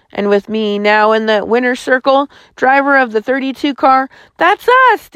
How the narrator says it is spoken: Dale yelped

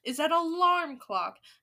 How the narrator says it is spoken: announced the Grand High Witch triumphantly

